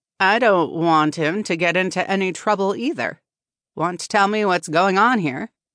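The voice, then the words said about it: Deep voice with sharp edge. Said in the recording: “A deep voice ... spoke with a sharp edge.”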